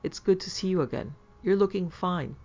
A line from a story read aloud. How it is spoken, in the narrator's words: exclaimed Professor Wheelbold